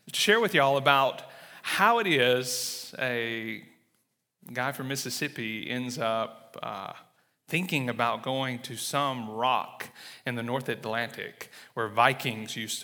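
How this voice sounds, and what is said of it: Southern American accent. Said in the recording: “I'm not going to hide my southern accent”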